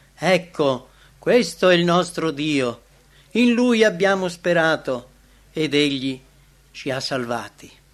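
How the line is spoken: Joyful crowd exclaiming. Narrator (Italian): A testa alta, illuminati dai raggi del sole di giustizia e felici per la redenzione imminente, vanno incontro allo sposo esclamando

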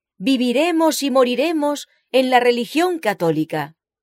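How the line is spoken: Tearful crowd exclaiming together. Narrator (Spanish): Las lágrimas le ahogaron la voz, y la asamblea entera lloró, exclamando unánimemente

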